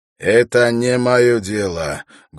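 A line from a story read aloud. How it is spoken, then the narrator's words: Rude, blunt. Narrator (Russian): грубо заявил он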